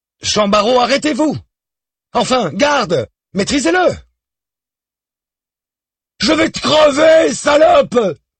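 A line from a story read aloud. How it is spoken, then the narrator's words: Young man screaming. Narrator (French): hurle toujours le jeune homme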